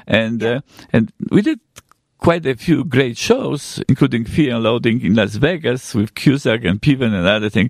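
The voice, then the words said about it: Polish accent. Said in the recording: “with Polish accents. You can hear my accent”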